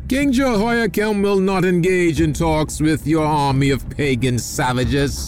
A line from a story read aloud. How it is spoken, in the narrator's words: one of his generals shouted back